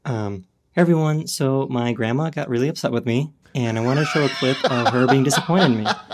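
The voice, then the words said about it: Calm YouTube presenter voice. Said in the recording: “When did that voice start? ... you definitely did settle into that calmer voice”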